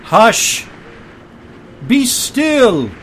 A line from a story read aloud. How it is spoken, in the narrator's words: said in a loud voice